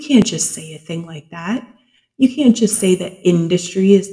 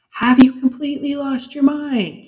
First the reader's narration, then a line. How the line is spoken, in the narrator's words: he shouted at Jena, his face darkening from red to purple